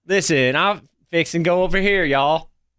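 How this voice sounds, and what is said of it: Put-on generic Southern accent. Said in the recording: “I think they're just doing the generic Southern ... that doesn't sound bad. That was pretty good.”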